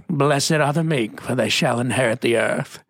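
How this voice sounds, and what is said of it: Put-on British accent. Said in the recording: “has a British accent, right? Let me do that one.”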